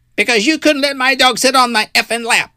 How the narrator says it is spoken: yells

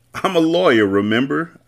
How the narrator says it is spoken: I laughed

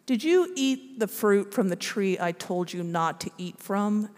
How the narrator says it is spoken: asked God

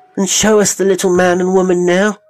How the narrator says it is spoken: the children cried

